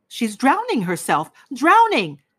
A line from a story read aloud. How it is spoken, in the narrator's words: shouted dozens of voices